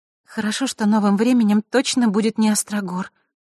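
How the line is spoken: Sighing. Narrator (Russian): вздохнула Василиса

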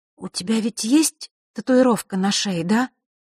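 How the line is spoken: Trembling voice. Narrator (Russian): дрожащим голосом произнесла Василиса

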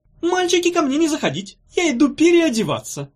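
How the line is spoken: Squeaky, from inside wardrobe. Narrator (Russian): пропищал он из шкафа

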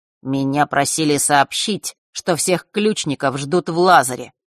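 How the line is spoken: Cold. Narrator (Russian): холодно произнес он

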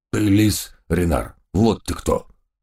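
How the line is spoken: Sudden growl, doberman. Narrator (Russian): неожиданно прорычал доберман Гавкинс

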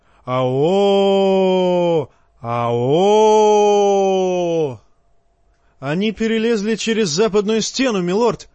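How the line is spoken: Shout. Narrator (Russian): крикнул старому медведю Торрен Смолвуд

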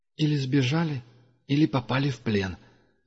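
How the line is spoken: Sigh. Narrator (Russian): вздохнул Дуга

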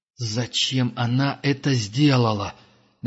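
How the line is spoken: Through gritted teeth. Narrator (Russian): наконец процедил он

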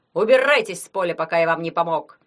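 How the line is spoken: Growled. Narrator (Russian): прорычал Соловей

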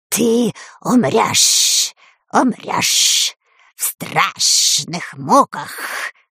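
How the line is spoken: Hissing. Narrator (Russian): прошипел он

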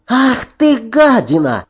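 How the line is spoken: Shrill shriek. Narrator (Russian): взвизгнула она

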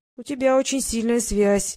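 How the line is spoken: Uncertain. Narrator (Russian): неуверенно сказал Ник

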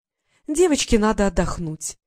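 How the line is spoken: Sweet singsong voice. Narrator (Russian): пропела Елена сладким голосом

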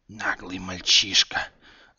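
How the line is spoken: Snake-like hissing. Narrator (Russian): зашипела змеиная морда

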